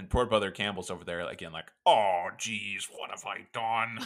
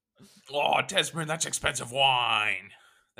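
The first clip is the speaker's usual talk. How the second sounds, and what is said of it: Imitates another person's voice. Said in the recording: “That's my Brother Campbell impression.”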